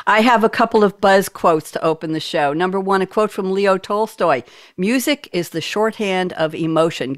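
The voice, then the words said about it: East Coast US accent. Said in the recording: “I'm the only one with an East Coast U.S. accent”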